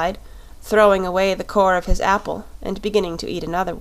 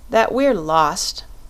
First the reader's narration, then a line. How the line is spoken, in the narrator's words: she said with a sigh